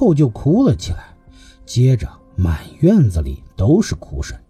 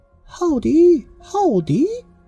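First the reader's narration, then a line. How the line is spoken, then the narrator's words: Soft repeated calling. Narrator (Chinese): 床下有小声连连的叫着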